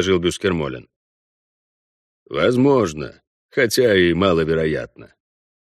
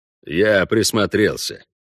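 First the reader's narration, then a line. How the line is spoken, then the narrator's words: Calm. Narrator (Russian): спокойно сказал Вольво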